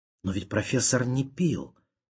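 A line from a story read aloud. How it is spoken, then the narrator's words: Young lady mumbling. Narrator (Russian): пробормотала барышня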